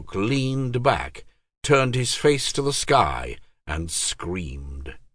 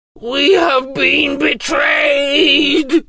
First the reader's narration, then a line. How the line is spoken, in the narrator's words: roared